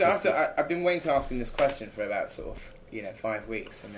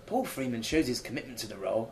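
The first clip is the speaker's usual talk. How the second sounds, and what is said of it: Put-on English accent. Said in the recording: “I'm doing an English accent ... I can't do the New York accent.”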